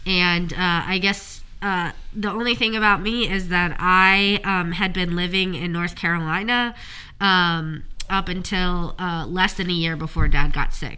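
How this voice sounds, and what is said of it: Nasal, congested voice from a cold. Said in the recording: “I have a bit of a cold, so I sound a little nasally”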